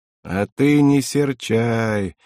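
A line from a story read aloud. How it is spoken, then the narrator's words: Gentle, affectionate. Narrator (Russian): ласково тетя Поля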